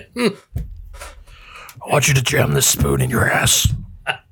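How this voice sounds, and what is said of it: Jigsaw horror villain voice impression. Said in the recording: “your jigsaw impression”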